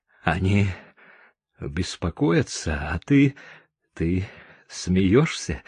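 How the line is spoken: Strained, breathless. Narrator (Russian): выдавил я из себя, задыхаясь

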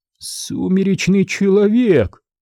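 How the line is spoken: Hoarse voice. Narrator (Russian): охрипшим голосом уточнил Майкл

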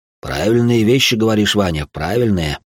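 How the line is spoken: Pleased grumble. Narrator (Russian): довольно пробурчал он

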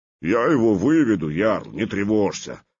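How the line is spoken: Deep bass voice. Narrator (Russian): пробасил Лунд

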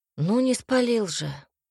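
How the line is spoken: Weary reply. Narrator (Russian): устало ответил Альберт

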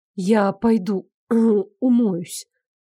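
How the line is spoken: Strained, forced words. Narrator (Russian): выдавила из себя Наташа

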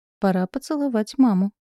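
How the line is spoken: Purring. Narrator (Russian): промурлыкал

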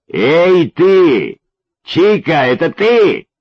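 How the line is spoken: Affectionate shout from afar. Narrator (Russian): крикнул невидимый за деревьями ласковый

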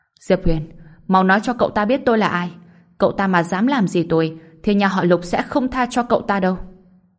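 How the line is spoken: Panicked yell. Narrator (Vietnamese): Lục Kình Ba gào lên

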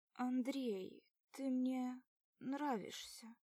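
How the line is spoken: Muffled distant words. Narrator (Russian): Глухо доносятся слова

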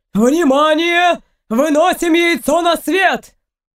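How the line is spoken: Shouted. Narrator (Russian): крикнул один из людей Эйнора

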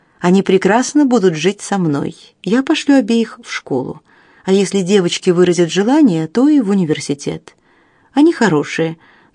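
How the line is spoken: Calm. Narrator (Russian): добавила она спокойно

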